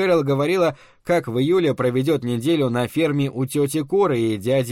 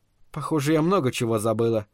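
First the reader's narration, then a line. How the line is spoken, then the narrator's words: Muttered. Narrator (Russian): пробормотала она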